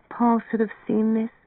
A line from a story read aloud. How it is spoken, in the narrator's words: she said wistfully